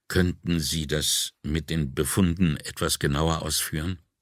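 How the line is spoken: Very quiet plea. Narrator (German): Nicolini bat mit sehr leiser Stimme

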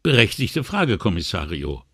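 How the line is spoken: Sighing. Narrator (German): seufzte sie

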